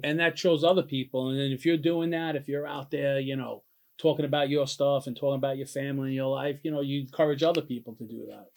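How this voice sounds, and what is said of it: Thick Italian-sounding accent. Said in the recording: “this accent of yours, because this is thick. Are you Italian? ... No, I hear it, man.”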